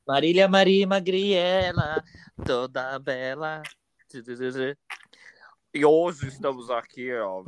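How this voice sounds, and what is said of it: Impression of Marília Gabriela. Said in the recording (Portuguese): “deixa eu ver se consigo fazer uma, uma voz de Marília Gabriela”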